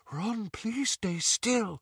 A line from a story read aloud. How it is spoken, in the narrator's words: Luna whispered